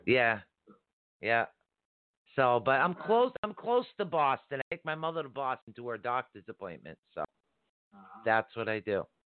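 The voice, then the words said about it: Boston-area Massachusetts accent. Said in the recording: “you're near me geographically based your accent. Are you in Boston or Massachusetts? ... I recognize the accent right away.”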